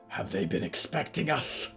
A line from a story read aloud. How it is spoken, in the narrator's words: Yuretsi growled